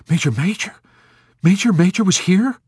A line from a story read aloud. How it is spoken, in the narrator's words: The chaplain spun around with surprise and cried